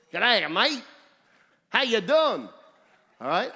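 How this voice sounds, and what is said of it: Put-on Australian accent. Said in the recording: “you all try to imitate at times how Australians talk, the accent.”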